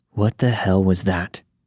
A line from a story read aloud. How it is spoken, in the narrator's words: James just muttered